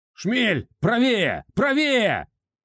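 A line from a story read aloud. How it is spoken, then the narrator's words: Shouting, unable to hold back. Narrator (Russian): Агроном не выдержал, закричал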